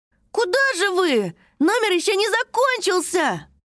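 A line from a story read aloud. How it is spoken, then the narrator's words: Shouting after someone. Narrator (Russian): крикнул вслед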